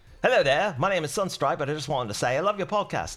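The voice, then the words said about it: Attempted Australian accent, not convincing. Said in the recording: “She wants me to read this in an Aussie accent ... It sound doesn't sound right”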